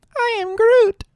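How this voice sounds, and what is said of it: Groot character voice impression. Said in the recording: “your best Groot impression”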